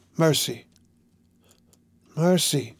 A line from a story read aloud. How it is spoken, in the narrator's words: murmured the priest